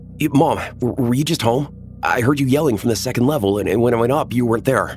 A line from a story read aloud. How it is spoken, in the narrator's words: said frantically